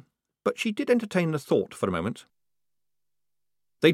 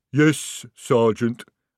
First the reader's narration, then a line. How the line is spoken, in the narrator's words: rumbled the troll